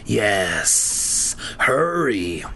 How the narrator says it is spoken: hissed

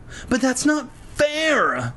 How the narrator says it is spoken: Lefty whined

